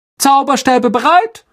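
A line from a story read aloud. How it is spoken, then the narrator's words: Calling out. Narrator (German): rief Lockhart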